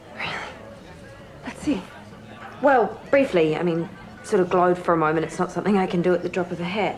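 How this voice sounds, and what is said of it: Australian accent. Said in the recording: “I love the Aussie accent.”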